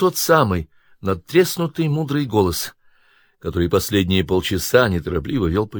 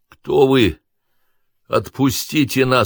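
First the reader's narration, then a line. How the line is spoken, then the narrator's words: Hoarse, slurred. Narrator (Russian): с трудом ворочая языком прохрипел Артем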